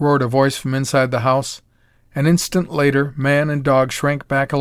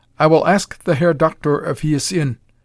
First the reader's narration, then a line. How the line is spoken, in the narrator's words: replied the man stiffly